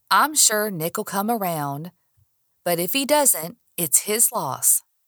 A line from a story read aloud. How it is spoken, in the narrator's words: Daniel said, shrugging